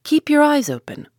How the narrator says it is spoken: called out the sailors

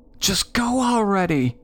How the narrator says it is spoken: my sister hollered in my ear

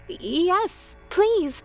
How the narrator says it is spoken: I stuttered

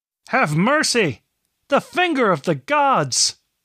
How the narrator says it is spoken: someone shouted

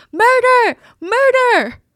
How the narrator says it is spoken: he's screaming

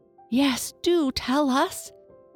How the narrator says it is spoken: begged

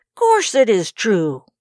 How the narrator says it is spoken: cried Charlie

